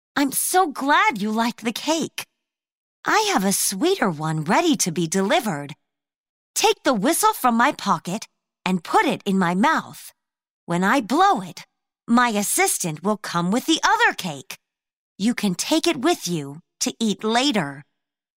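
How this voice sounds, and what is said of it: Sweet, sugary voice. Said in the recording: “in her sweetest voice”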